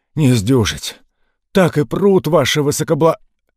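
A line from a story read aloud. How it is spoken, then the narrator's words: Hoarse wheeze. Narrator (Russian): Тот прохрипел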